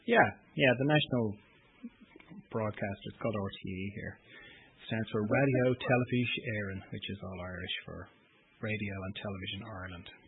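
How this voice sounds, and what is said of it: Irish accent with slight Australian tinge. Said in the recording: “your wonderful accent... it sounds like Australia and then it's like Ireland... I'm Irish, but I lived in Australia for 10 years... I still have a bit of an Australian accent”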